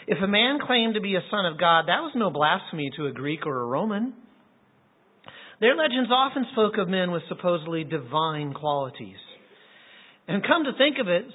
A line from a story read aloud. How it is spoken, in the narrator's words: says Bruce